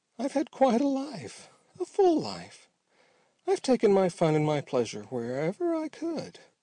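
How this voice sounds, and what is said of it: Awful-sounding skeleton character voice. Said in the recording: “went on the skeleton in his awful voice.”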